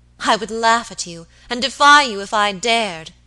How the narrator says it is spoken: she cried

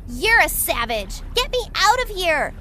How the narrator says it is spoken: shouted the thief

